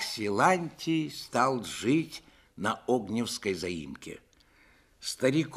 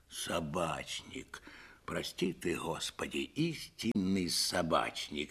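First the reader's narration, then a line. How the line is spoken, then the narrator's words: Whispered. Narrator (Russian): шептал Силантий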